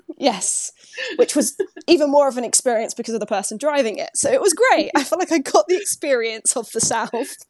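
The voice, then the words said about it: English accent. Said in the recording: “everyone was fascinated with my accent ... when they heard my accent”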